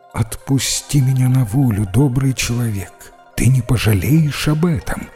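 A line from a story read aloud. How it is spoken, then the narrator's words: Plain. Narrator (Russian): сказала она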